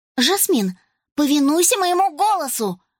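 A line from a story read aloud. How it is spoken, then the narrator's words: Exclaimed. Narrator (Russian): воскликнула Рос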